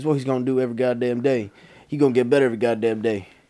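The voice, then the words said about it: Put-on Southern American accent. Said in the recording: “you've gone from British accent to Southern accent.”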